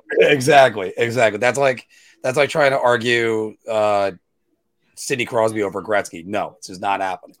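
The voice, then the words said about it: Voice sounds strained from shouting. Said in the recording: “in case if my voice sounds completely different, it's because I was in a shouting match with somebody last night”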